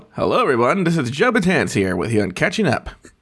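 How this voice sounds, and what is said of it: Energetic radio broadcaster voice. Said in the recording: “the broadcaster voice that you do on the show ... radio voice ... it's not like drastically different from your real one. It's just like more energy”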